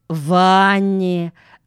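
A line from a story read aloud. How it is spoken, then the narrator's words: Slow repetition. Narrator (Russian): медленно повторила Джуди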